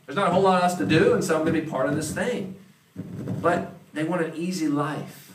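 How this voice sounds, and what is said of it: Southern US accent. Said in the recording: “I happen to be part from that part of the country, if you can't tell my accent ... back in the Southeast”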